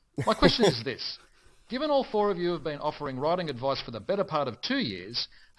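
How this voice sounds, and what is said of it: Australian accent. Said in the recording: “my Bonza accent, like Jed, I also hail from sunny Australia, though from Melbourne”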